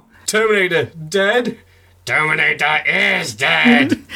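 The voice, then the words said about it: Mediocre robot voice. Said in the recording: “That's my robot voice, it's not very good.”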